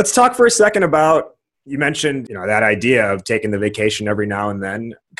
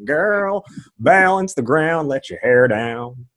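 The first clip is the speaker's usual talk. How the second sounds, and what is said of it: Put-on country music accent. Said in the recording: “And that's my country music accent.”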